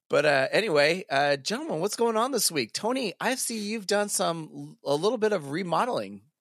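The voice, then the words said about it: Congested, stuffy voice. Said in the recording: “whatever the sinuses or head colds and just full of sounding like this and mucus”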